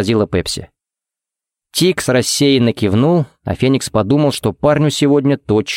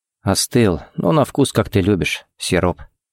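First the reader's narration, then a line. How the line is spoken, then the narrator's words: Quiet remark. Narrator (Russian): заметил тихо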